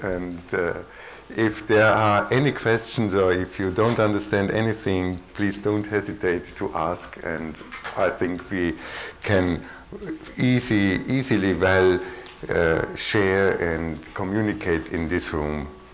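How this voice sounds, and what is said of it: Viennese-accented English. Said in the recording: “my English and my Viennese accent”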